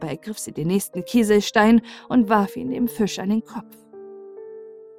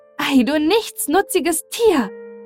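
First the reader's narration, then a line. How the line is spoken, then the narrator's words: Furious shout. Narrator (German): rief Elsbeth im höchsten Zorn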